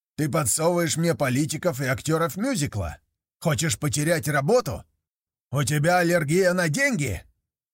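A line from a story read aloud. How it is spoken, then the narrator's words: Angry bark. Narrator (Russian): рявкнул Тейт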